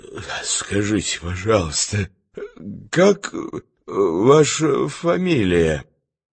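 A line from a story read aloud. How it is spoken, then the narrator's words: Hoarse question. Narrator (Russian): хриплым голосом спросил незнакомца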